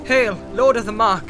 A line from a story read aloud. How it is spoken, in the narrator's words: she cried